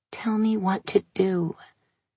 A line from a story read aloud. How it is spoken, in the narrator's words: She whispered